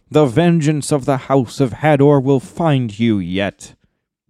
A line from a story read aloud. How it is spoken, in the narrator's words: Beleg cried after him